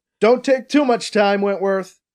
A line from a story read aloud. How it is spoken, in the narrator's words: BC shouts at the mirror